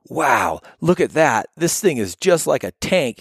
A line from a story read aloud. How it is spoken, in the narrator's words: he exclaimed happily